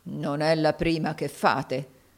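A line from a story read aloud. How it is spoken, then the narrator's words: Muttering. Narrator (Italian): borbottò Locker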